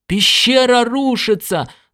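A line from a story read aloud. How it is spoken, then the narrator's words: Yelling. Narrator (Russian): завопил Уайти Джонс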